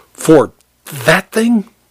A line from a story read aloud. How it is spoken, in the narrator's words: he spat